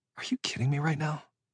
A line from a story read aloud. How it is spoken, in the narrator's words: I muttered